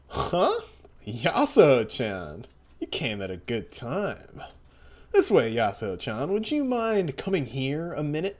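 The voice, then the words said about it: Character voice for a doctor. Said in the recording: “I'll do the voice for this man”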